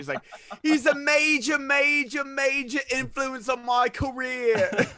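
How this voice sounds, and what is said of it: Put-on British accent. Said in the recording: “Was that British accent? ... Was very good.”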